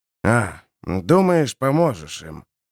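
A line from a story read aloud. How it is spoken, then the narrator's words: Reproachful grumble. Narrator (Russian): Сукаризной проворчал Харман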